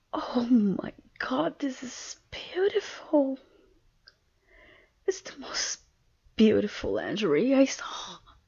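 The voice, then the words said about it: Foreign accent. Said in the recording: “You really like the way I say it? ... Oh, it's my accent.”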